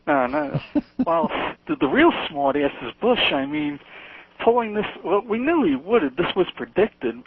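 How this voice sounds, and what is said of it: Long Island accent. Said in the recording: “I know I have a Long Island accent ... I love Long Island accent. It's a wonderful accent.”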